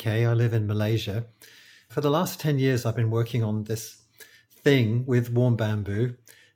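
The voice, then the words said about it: British accent. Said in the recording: “I'm a British acupuncturist. I think you can probably tell from my accent”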